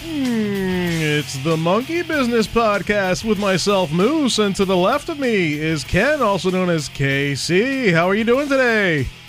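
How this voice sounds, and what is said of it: Announcer-style voice impression. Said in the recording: “my Don Pardo impression”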